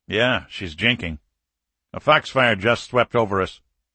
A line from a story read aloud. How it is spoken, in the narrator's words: Isley said evenly